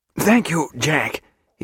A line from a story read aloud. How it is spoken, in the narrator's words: he said, gasping